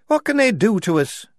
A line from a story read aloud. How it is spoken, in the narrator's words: said Shufti nervously